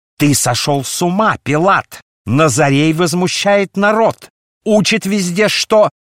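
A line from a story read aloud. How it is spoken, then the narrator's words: Furious shout. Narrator (Russian): Оставив напускную сдержанность, Каиафа яростно закричал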